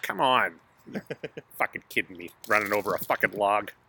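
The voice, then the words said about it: Imitates another person's voice. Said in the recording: “a good impression”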